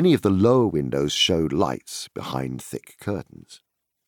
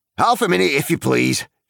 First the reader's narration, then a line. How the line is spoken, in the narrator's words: shouted the man over his shoulder